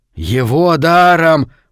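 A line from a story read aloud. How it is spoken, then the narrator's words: Hissed. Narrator (Russian): прошипел мужчина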